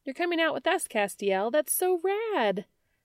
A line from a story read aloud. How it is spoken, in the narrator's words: she chirped